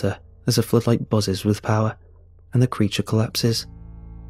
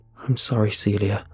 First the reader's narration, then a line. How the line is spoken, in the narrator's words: murmur sadly